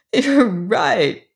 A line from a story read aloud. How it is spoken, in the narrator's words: sobbed Emma McChesney, her face glowing